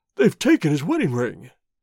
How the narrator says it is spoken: he gasped

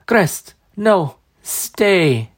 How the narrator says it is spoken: she gasped

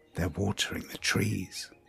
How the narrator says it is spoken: Ariane whispered again

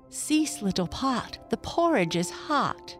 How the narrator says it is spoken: she cried

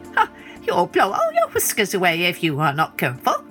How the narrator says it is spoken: said the gnat with a laugh

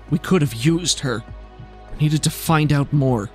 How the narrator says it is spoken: Reitz's lip curls into a snarl and she … says

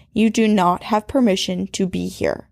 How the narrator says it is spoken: she firmly said

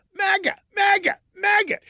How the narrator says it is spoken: Burke yelled

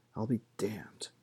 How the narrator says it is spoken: Gareth murmured

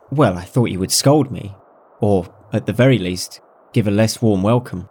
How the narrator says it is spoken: Xu Fengnian said in a calm voice

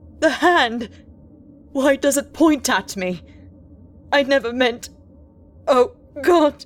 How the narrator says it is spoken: gasping shrieking wildly at intervals

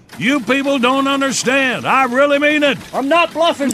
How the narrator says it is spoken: The man shouted

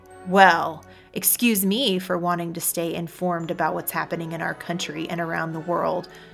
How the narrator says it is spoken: Joey snapped defensively

